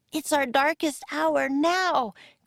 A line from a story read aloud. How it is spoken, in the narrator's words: cried Annie